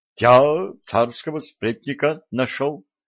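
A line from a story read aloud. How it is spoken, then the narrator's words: Confused babbling. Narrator (Russian): пролепетал сбитый с толку стрелец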